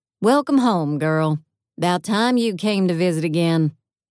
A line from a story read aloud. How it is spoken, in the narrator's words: In a jarring, unexpected southern accent, Sunstar's AI said